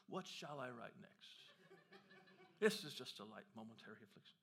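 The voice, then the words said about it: Put-on British accent. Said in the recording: “I gave him a British accent for some reason.”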